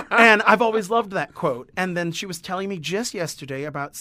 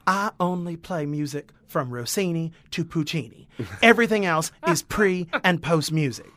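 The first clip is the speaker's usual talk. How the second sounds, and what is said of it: Imitated San Antonio Texan accent. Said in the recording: “she's from San Antonio, so I'll try to do her accent,”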